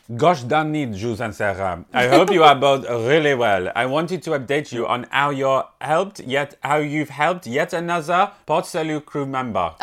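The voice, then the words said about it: Put-on French accent. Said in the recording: “You do it in a French accent ... I can do it in a French accent.”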